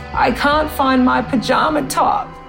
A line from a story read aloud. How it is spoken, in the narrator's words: she wailed and she choked out the words